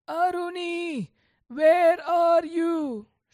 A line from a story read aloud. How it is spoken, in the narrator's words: shouted the sage